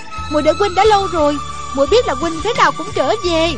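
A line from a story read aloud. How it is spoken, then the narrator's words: Joyful cry. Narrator (Vietnamese): Gương mặt cô rạng rỡ nét cười, reo lên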